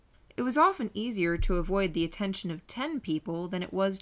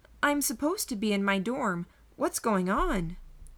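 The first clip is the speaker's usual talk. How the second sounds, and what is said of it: Slightly higher-pitched voice. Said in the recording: “I pitched my voice just a bit higher, my eyes wide.”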